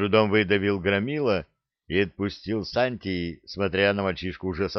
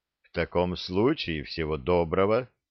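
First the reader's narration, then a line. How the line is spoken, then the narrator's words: Cold. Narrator (Russian): столь же холодно сказал Лек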